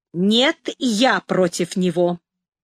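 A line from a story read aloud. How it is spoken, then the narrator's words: Sharp interruption. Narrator (Russian): резко остановил меня Расщепей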